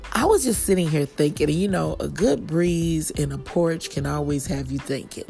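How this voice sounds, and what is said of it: Hoarse, fading voice. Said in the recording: “out of nowhere I'm starting to lose my voice”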